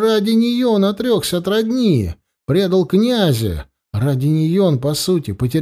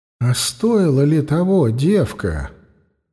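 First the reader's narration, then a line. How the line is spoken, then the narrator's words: Inner voice whisper. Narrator (Russian): шепнул голос глубоко внутри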